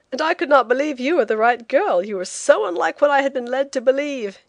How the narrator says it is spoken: he said with a laugh, in a burst of confidence

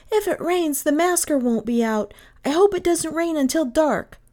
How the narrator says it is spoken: Kay cried

